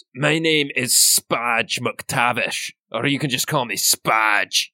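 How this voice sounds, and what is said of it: Character voice with put-on accent. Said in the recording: “I'm going to change his accent.”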